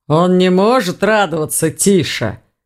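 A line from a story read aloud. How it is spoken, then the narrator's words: Grumbling. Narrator (Russian): проворчал Думон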